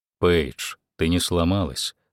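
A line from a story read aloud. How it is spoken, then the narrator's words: Calm. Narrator (Russian): спокойно сказал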